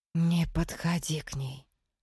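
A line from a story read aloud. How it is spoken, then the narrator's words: Low voice. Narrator (Russian): вполголоса сказала Настя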